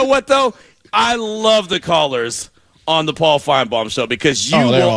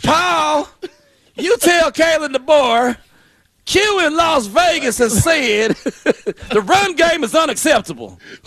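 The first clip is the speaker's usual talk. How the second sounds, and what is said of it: Put-on Southern accent. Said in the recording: “Out here speaking with a southern accent.”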